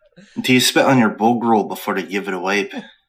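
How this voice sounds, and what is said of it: Put-on Irish accent. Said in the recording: “stagger Irish accent”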